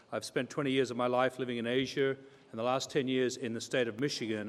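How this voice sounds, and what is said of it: Australian English accent. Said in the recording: “For those of you who can gather the accent, I'm an Australian citizen”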